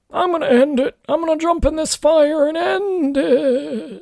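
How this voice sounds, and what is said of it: Impression of an old man. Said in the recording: “That was a really good impression.”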